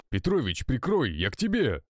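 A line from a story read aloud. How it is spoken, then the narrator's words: Exclaimed. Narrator (Russian): воскликнул Сергей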